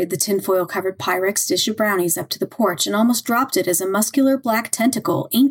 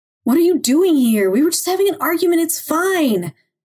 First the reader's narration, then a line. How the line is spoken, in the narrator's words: Gavin shouted through the glass